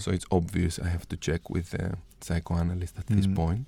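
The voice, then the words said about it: Hoarse, deep voice. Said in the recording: “I have a very hoarse voice today ... It's very radio voice ... for about 4 weeks now I have the flu”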